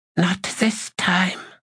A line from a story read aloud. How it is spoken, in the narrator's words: whispered